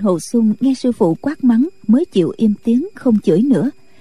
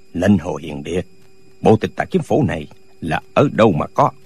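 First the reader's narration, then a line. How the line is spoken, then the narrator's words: Long loud laughter. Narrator (Vietnamese): Lệnh Hồ Xung cười lớn một tràng dài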